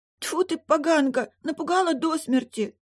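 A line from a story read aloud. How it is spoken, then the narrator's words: Tearful girl. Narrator (Russian): проговорила девочка сквозь слезы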